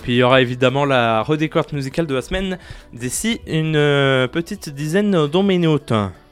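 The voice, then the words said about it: Speaking with a put-on accent. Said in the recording (French): “Pourquoi je prends un accent ? ... je prenais un accent et que je ne savais pas pourquoi.”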